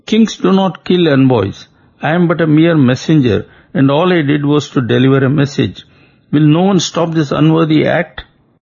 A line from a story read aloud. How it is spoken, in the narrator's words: as they were preparing to kill him, Shuka wailed